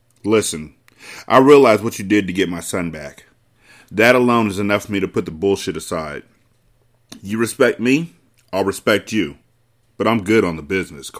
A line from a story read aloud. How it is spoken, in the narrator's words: Carter said